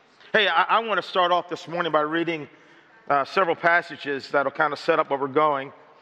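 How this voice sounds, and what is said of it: Slightly hoarse voice. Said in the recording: “my voice is a little hoarse. A little hoarse. ... my voice is a little bit hoarse”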